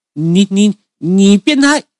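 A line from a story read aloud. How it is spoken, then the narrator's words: Angry embarrassed yelling. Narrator (Chinese): 他的脸色为之一变，随即恼羞成怒，指着我大叫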